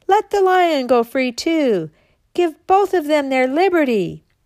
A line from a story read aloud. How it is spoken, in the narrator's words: Others cried